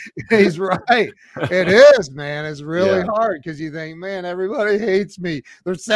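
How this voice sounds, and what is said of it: Usual voice. Nothing is said of it.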